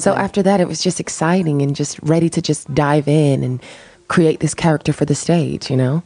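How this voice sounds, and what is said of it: Southern American accent. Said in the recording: “That's why you have this accent of yours. ... my little southern accent.”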